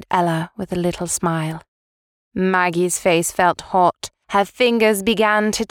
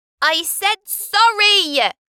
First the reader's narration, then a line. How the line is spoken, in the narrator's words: shouted Maggie